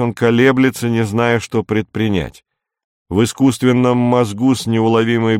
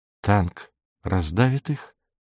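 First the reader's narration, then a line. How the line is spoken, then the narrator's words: Whisper. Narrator (Russian): шепнула Нина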